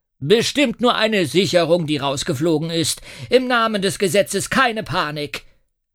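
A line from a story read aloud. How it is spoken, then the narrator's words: Police inspector calling. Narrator (German): der Polizeiinspektor ruft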